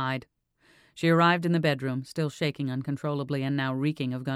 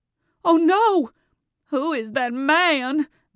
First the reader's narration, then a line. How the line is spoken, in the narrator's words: Marianne cried